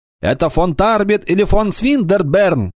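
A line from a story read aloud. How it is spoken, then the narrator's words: Shout. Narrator (Russian): крикнул он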